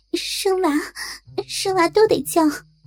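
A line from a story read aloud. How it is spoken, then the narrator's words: Panting question. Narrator (Chinese): 我喘着问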